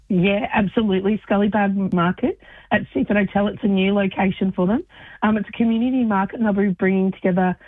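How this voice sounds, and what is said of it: Hoarse, partly lost voice. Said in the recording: “I've lost my voice a bit”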